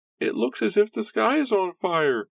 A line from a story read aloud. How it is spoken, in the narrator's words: screamed a little girl